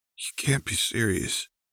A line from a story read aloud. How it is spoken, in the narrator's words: he said in a strained voice, the distress evident